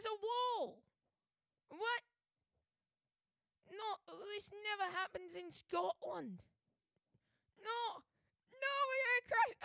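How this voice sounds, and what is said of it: Patchy put-on Scottish accent. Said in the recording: “playing a now-dead Scotsman named Sean, who, for a solid, you know, few lines in there, was not a Scotsman ... You just went fully back into your voice ... It's rather hard to do a Scottish voice”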